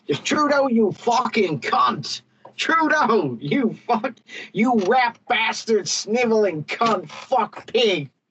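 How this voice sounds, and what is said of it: Shouted put-on Bronx New York accent. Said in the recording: “I do it in my best Bronx, you know, best sort of New York accent.”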